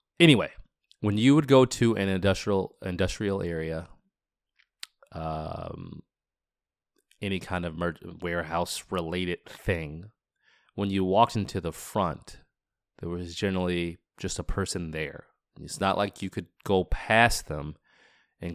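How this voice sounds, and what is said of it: Congested, sick-sounding voice. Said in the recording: “This cold is just killing my pronunciation and my accent.”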